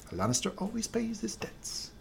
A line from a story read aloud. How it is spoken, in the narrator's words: leaves muttering